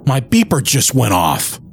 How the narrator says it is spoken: Don shouts

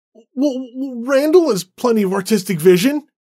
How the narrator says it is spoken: David exclaimed

